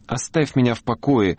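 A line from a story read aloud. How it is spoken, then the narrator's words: Irritated squeak. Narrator (Russian): раздраженно пискнула девочка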